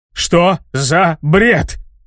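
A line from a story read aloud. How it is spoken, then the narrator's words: Yelling. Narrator (Russian): заорал Джошуа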